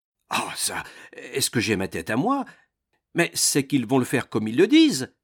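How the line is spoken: Traveler exclaiming. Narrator (French): s'écria le voyageur

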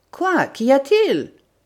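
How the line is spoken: Alarmed exclamation. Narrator (French): s'écria Wilson effaré

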